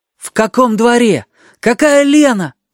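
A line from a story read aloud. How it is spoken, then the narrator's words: Pleading. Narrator (Russian): почти взмолился Сережа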